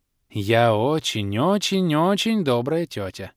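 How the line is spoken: Sweet cooing. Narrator (Russian): проворковала черная баронесса

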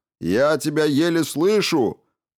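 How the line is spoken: Shouted reply. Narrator (Russian): прокричал в ответ Хокинс

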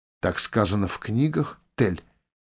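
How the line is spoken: Quiet question. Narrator (Russian): негромко спросила Лой

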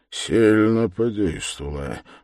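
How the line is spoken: Frowning mutter to himself. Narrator (Russian): бормотал про себя Свидригайлов, нахмурясь

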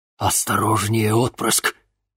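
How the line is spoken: Tense whisper in ear. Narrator (Russian): напряженно шептала Локобал в ушах Дениса

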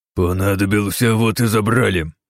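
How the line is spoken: Leader's growl. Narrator (Russian): рыкнул их лидер

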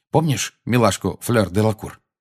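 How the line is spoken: Plain. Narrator (Russian): спросил

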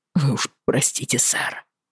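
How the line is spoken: Mumbling. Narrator (Russian): забормотал он

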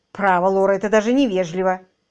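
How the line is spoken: Angry. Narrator (Russian): сердито сказала мисс Эдамс

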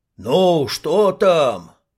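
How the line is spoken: Shouting from a crowd. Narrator (Russian): закричали из толпы

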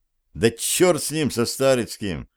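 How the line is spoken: Irritated, spat out. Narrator (Russian): раздраженно сплюнул Зверев

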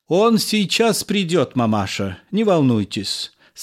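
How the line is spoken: Calm. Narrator (Russian): сказал я спокойно

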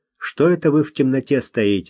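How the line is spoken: Plain. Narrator (Russian): спросил Люсьен

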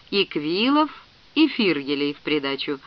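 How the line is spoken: Thoughtful. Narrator (Russian): задумчиво продолжал чиновник

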